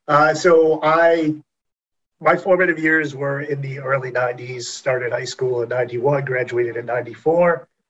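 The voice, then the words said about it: Massachusetts accent. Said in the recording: “I am raised in Massachusetts, as you can probably tell from the accent.”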